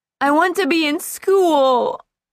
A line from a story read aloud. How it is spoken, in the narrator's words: Anna wailed